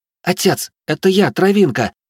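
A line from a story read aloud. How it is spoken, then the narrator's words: Young woman exclaiming. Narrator (Russian): воскликнула девушка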